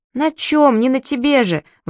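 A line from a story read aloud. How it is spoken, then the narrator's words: Exclaiming. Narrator (Russian): воскликнул Сири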